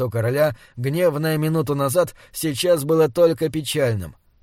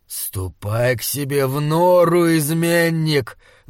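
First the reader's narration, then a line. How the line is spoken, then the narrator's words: Angry growl. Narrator (Russian): зарычал он, когда Джошуа вырвал у него руку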